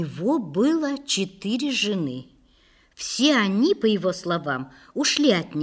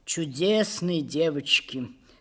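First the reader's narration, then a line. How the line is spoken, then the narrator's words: Sighing. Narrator (Russian): сказал он, вздохнув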